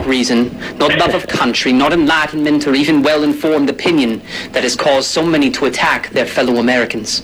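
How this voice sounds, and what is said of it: Affected British-sounding accent. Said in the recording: “You turn into Harry Potter in there ... that is a full-on accent ... it definitely is an accent ... You have to put that on”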